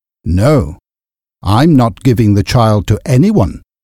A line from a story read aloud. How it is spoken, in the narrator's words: Silas said firmly